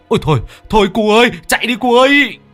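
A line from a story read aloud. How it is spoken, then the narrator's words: Screaming in alarm. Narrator (Vietnamese): ông Cạc rú lên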